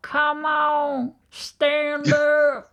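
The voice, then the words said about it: Imitated country accent. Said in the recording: “he had a very country accent ... that's not the usual Wisconsin accent. And I hope I've done it justice there.”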